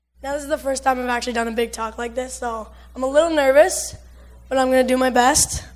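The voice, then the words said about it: Hoarse, partly lost voice. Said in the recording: “lost my voice early this week, so I might cut out here and then”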